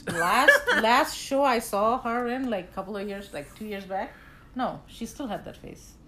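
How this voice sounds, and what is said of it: Non-native foreign accent. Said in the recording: “I'm not from here, so I'm a foreigner ... Stick to my accent.”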